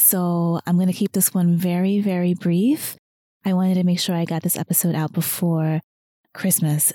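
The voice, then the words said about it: Strained, softer voice, losing it. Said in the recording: “I am actually losing my voice ... losing my voice ... I sound a little weird or if I'm talking a little softer than usual”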